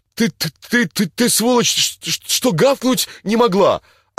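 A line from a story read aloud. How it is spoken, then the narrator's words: Stammering babble. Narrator (Russian): Самый крепкий лепечет ей прямо, аж заикается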